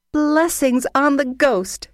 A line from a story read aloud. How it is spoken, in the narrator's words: cried Margaret gaily, as she ran about as merry as a child